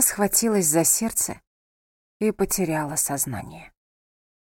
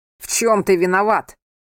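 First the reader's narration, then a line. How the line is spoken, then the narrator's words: Sudden shout. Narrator (Russian): внезапно крикнул Анхель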